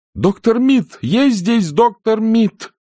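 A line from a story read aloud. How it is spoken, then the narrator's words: Shouting at full voice. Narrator (Russian): закричала, что было мочи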